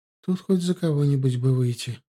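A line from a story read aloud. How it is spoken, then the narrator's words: Sad reply. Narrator (Russian): грустно отозвалась Ветка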